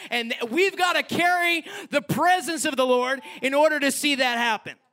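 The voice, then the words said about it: Yelling. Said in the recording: “I'm yelling.”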